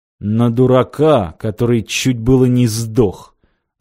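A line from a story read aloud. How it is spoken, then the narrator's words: Angry, through gritted teeth. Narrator (Russian): зло процедил сквозь зубы сталкер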